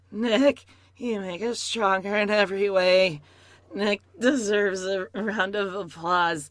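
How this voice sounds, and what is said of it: Forced imitation of another woman's voice. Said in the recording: “in my Jennifer voice, which is just like this. It's very forced.”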